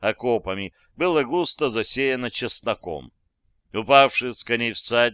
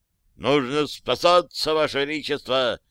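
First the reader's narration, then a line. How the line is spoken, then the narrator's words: Urgent shout. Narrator (Russian): закричал князь Радзивилл королю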